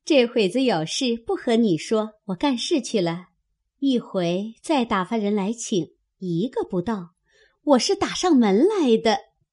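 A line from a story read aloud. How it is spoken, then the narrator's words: Laughing. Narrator (Chinese): 平儿笑道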